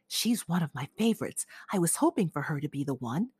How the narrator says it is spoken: his father had whispered

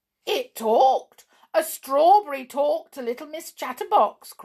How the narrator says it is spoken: cried Mr

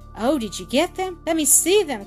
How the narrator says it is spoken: cried Blanche in an eager, excited tone

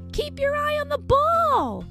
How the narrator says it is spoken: I yell

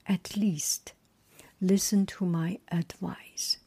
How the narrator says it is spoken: said

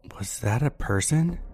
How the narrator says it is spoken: My mom whispers to me

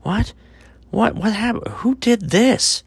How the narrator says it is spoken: Thomas cried out

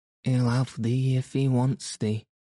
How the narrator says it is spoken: said Martha

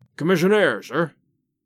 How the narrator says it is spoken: he said gruffly

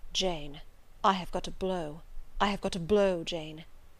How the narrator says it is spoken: his paleness when he whispered

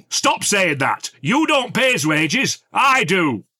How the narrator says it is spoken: Frank was shouting

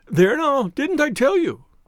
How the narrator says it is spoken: cried the poor little man

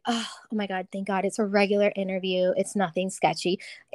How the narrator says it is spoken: let out a sigh of relief

